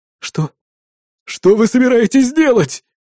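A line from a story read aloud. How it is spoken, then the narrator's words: Frightened squeal. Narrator (Russian): испуганно взвизгнул наш клиент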